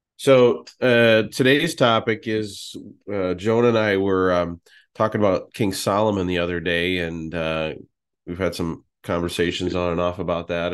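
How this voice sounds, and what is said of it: Congested, sick-sounding voice. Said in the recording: “I'm battling a bit of a cold, so if I sound different”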